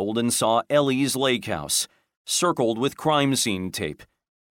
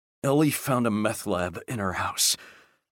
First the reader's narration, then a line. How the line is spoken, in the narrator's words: In a weak, breathy voice